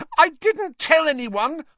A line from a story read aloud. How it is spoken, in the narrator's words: Hermione shrieked